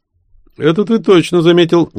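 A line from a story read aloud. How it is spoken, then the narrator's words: Unenthusiastic reply. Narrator (Russian): не шибко бодро отозвался Толя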